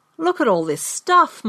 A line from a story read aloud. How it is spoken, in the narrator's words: my brother exclaimed